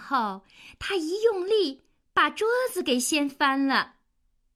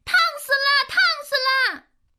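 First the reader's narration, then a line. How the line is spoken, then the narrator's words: Loud yelling. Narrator (Chinese): 脾气大王大声的叫道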